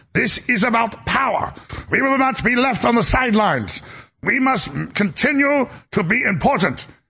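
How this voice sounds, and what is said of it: Ursula von der Leyen accent impression. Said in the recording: “Ursula von der Leyen ... literally in that accent.”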